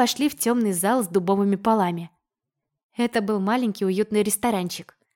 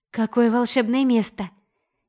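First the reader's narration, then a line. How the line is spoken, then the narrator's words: Excited exclamation. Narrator (Russian): Не выдержав, воскликнула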